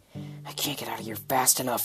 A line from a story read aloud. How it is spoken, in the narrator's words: he muttered